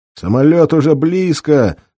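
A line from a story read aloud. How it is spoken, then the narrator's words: Yelling. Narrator (Russian): заорал командир пусковой бригады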